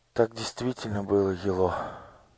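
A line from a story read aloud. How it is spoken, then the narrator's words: Barely audible. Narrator (Russian): чуть слышно сказала она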